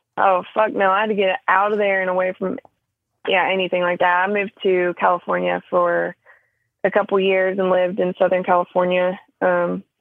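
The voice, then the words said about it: Southern US accent. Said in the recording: “I'm assuming based on your accent that you're originally from the South.”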